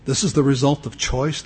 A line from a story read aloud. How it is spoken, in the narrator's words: the angel asked